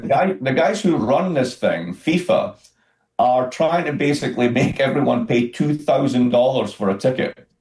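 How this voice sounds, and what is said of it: Scottish accent. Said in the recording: “You can probably hear my accent. I'm from Scotland.”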